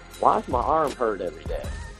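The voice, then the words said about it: Imitated Texas accent. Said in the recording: “he'd have that Texas accent and be like”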